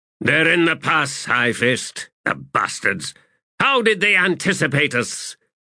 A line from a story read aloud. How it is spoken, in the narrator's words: cursed, spat, and then said